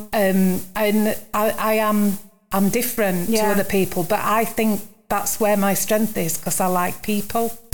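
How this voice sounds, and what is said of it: Barnsley accent. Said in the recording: “I've got this Barnsley accent.”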